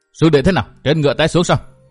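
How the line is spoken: Hurried question. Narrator (Vietnamese): người phía trước ... vội ... hỏi

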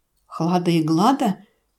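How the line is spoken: Trembling question. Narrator (Russian): дрожащим голосом спросил Шлеп

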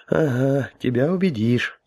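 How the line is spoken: Sighing. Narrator (Russian): вздохнул Гоша

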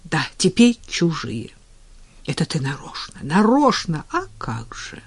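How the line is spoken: Calm agreement. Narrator (Russian): Неожиданно и спокойно согласилась Надя

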